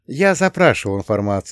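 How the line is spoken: Sighing. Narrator (Russian): вздохнул я

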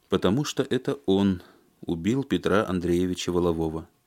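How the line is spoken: Calm. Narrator (Russian): спокойно сказал Алексей

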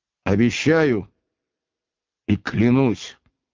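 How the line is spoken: Solemn declaration. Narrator (Russian): торжественно произнес Иван

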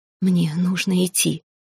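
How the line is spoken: Halting whisper. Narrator (Russian): сбивчивым шепотом проговорил Лид

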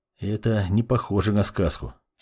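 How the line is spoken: Quiet reply. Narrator (Russian): тихо отозвался Жак

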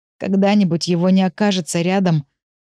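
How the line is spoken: Cut off, strangled wheeze. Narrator (Russian): Не договорил, снова захрипел, когда удавка на горле натянулась до предела

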